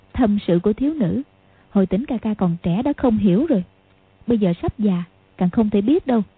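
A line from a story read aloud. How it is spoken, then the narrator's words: Smiling. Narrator (Vietnamese): mỉm cười nói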